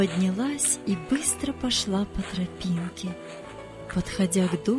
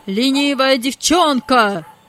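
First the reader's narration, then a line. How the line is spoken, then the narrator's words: Angry shout. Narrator (Russian): закричал хозяин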